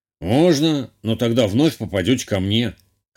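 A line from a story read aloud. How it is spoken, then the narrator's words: Snorting. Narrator (Russian): хмыкнул целитель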